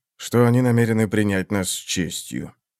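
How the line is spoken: Sighing. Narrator (Russian): вздохнул Танакалиан

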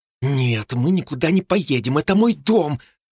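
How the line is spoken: Hiss. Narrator (Russian): зашипела на нее Джо

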